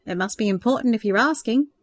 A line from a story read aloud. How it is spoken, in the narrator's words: Peter replied with a laugh